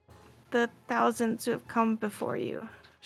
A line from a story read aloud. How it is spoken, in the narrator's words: she muttered